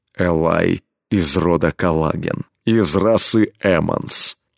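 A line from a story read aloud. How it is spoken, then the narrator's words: Low, impassive, steely voice. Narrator (Russian): ответил изменившимся, низким бесстрастным голосом, в котором слышались стальные нотки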